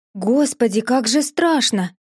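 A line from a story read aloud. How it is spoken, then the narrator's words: Exclaiming. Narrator (Russian): воскликнула сестра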